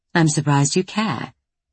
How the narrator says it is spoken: she says dryly

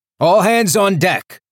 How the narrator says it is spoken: Calder shouted

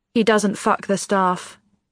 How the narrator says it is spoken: she says flatly

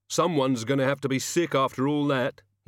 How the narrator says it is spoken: he said, raising his voice above the hubbub

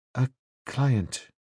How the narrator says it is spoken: she said at last, and in a smaller voice

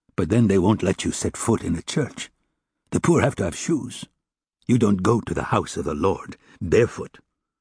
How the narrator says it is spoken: he added bitterly

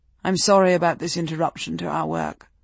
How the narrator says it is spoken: she said

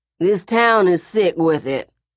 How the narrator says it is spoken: Bozeman said, slurring

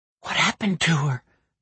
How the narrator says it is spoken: the surveyor whispered

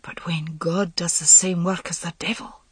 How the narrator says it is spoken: Gareth said, and his voice was oddly subdued

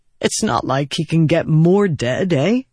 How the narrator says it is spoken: He said, then chuckled awkwardly

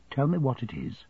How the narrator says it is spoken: she said in a low voice

